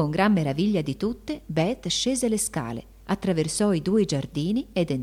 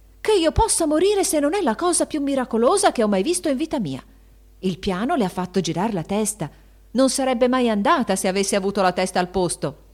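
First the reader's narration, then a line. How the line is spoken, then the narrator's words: Admiring shout. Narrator (Italian): gridò Anna guardandola con ammirazione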